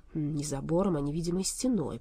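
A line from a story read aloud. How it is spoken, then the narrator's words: Grumbled. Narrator (Russian): проворчал Болт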